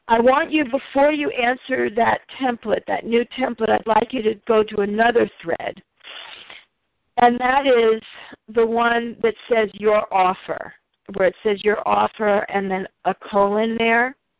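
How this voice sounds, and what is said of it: Rough, pollen-affected voice. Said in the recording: “there's just pollen in the air, so forgive my voice here.”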